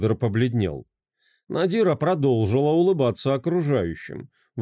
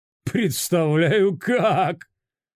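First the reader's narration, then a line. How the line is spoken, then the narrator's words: Laughing loudly. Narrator (Russian): Расхохотался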